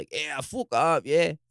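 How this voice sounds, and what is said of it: Put-on rough working-class Dublin accent. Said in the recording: “They had a bit of a knacker accent.”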